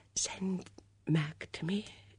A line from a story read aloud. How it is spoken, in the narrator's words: she whispered